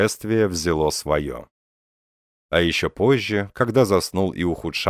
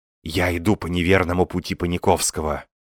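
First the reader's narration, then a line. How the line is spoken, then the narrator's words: Whisper. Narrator (Russian): прошептал Остап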